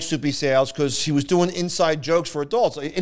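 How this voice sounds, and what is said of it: Usual voice. Nothing is said of it.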